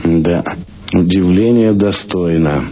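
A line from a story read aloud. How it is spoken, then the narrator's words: Sighing. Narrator (Russian): вздохнул Самойленко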